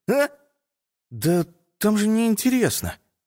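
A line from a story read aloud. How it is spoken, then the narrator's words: Uncertain. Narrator (Russian): неуверенно ответил Саня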